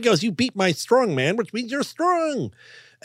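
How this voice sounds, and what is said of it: Impression of Wallace Shawn. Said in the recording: “my favorite impression... the first one that I ever did, which was Wallace Shawn from The Princess Bride”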